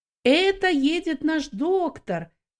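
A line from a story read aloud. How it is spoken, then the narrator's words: Shouting. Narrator (Russian): некоторые из них кричали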